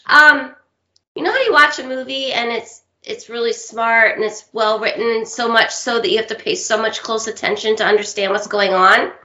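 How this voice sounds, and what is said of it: Smoky, husky voice. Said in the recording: “sorry about my voice ... It's smoky. ... It's my little sexy voice.”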